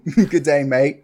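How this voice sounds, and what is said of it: Bad put-on Australian accent. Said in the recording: “I'm not going to do accents. I already do enough bad accents”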